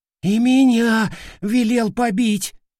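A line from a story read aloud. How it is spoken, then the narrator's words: Timid squeak. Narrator (Russian): Пискнул осторожный боец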